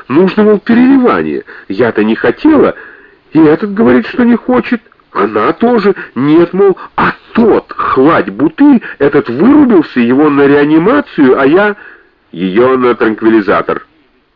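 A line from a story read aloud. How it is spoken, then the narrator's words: Booming commanding voice. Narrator (Russian): громогласно распорядился главный хирург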